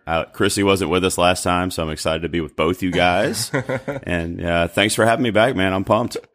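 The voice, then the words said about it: Low-pitched North Carolina drawl. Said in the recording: “I know where that voice comes from. It's definitely got to be from North Carolina ... you've got this cool kind of, you know, low pitched radio drawl”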